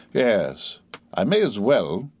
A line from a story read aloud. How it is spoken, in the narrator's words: said coolly